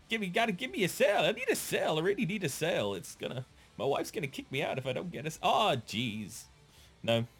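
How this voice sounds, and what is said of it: Imitates a cartoon salesman character. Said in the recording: “They're becoming like Gil from The Simpsons. Remember Gil, the sales guy? ... It was a really good impression.”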